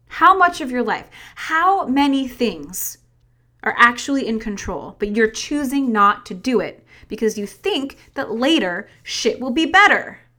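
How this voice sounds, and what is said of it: Yelling, loud fired-up voice. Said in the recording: “sorry for yelling”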